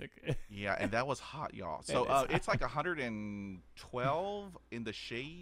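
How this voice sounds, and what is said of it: Texas accent. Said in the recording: “if y'all didn't pick up on my accent, I'm from Texas, Houston, Texas.”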